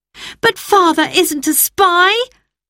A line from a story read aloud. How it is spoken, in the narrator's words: cried Roberta